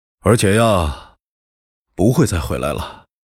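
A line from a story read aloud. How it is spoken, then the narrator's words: Pausing, sighing. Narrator (Chinese): 他停下来叹息道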